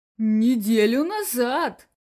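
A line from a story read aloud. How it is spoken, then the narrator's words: Slightly agitated answer. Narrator (Russian): немного взволнованно ответил директор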